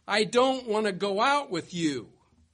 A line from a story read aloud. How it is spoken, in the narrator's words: The more confident white girl gets annoyed, shouts